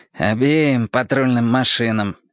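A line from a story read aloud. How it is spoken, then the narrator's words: Grumbled. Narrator (Russian): пробурчал прыщавый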